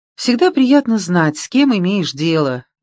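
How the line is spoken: Cheerful announcement. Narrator (Russian): весело объявила она

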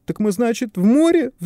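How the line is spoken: Fearful howl. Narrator (Russian): взвыл от страха Давыдов

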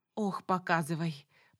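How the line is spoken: Mock sigh. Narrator (Russian): притворно вздохнула я

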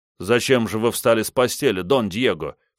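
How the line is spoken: Plain. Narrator (Russian): спросил Бенвенуто

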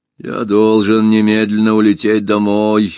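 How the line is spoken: Gloomy repetition. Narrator (Russian): мрачно повторил Гайдо

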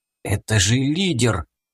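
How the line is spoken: Policeman whispering. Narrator (Russian): прошептал полицейский

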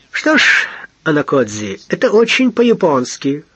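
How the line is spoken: Amused snort. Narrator (Russian): хмыкнул достопочтенный

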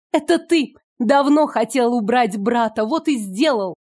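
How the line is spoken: Shout. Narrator (Russian): крикнула

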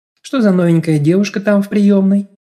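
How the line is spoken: Serene purring. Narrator (Russian): Безмятежным голоском промурлыкала Юлька

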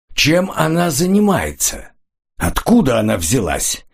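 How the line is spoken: Loud demand. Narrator (Russian): потребовал громким голосом

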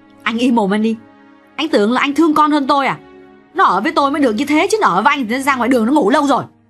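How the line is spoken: Shouting back, interrupting. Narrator (Vietnamese): Xuyến quát lại theo thói quen, theo phản ứng tự nhiên là hễ Tạo nói ra bất cứ điều gì, Xuyến đều phải cắt ngang

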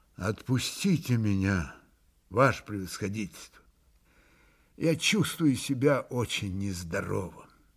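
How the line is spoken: Exhausted pleading voice. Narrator (Russian): изнеможенным голосом попросил

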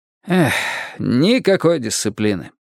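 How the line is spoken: Sighed. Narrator (Russian): вздохнул Тони Карьерас

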